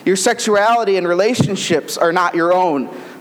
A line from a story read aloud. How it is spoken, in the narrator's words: says St